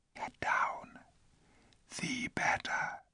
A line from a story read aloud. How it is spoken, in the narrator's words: said in the lowest possible whisper